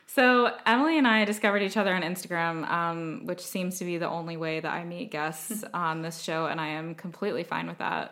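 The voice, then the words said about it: American accent. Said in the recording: “You guys can probably hear that we have a similar accent, similar enough at least, because we're both American.”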